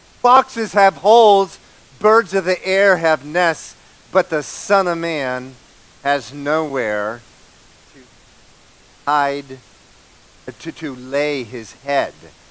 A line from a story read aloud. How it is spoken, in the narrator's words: says